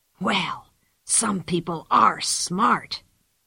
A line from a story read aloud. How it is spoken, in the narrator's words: he whispered